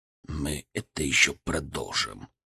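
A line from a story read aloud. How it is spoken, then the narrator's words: Quiet. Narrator (Russian): сказал тихо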